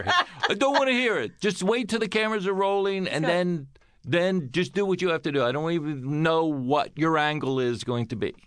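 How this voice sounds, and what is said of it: Imitates another person's voice. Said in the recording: “That's my impression of Larry.”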